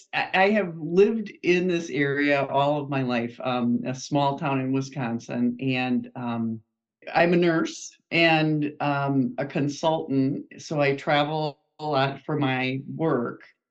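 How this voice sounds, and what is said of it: Wisconsin accent. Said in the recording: “I am a Wisconsinite, which you'll pick up from my accent in about 2 seconds.”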